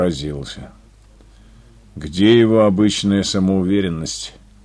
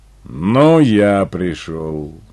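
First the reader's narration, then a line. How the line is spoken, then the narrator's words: Flat, wooden voice. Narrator (Russian): деревянным голосом ответил Юренев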